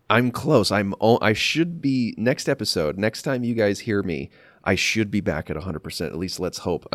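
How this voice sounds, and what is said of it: Congested, nasal, slightly deeper grainy voice. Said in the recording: “my voice sounds a little different right now ... I'm not 100%. You guys can probably hear it in my nose ... You're a little deeper. You're a little more nasal. And there's like a hint of graininess in your voice.”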